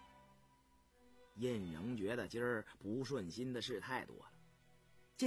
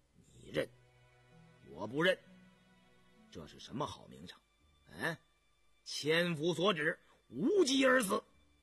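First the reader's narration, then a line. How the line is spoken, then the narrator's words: Cold, offended. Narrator (Chinese): 印仍还是觉得这混小子对自己太无礼了，冷冷地说道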